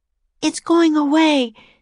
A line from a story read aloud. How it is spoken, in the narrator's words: she said, panting